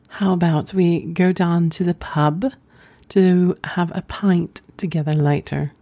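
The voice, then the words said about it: Poor attempt at English accent. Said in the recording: “these are horrible, I am so sorry, I'll never be fully English at all.”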